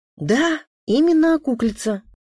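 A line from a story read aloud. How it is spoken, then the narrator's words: Confident exclamation. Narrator (Russian): уверенно воскликнула Рита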